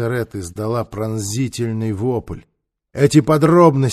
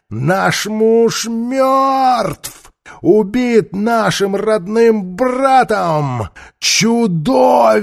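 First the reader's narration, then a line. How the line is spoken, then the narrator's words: Shrieked through bars. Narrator (Russian): Она завизжала Мерикари сквозь прутья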